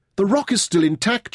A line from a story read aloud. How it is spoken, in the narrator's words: cried